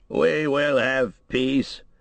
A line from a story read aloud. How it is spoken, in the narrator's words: said Théoden at last, thickly and with an effort